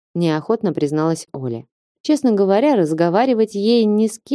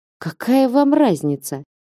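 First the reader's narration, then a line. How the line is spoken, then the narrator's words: Irritated question. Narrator (Russian): раздраженно спросила Оля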